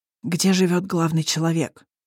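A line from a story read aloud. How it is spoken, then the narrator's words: Wheezing demon. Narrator (Russian): просипел высокий демон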